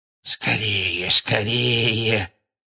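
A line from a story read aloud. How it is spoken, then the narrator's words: Hoarse muttering. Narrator (Russian): Сипло бормотал кто-то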